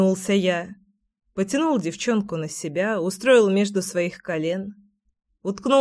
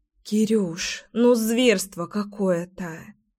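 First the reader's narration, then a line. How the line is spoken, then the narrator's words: Sigh. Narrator (Russian): вздохнула Леська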